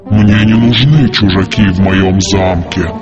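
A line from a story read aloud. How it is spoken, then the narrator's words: Monster's growl. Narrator (Russian): прорычало чудовище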